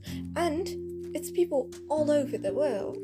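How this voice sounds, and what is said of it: Fake British accent. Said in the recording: “what happened to my voice? ... My whole, like, fake British accent just flew in just now”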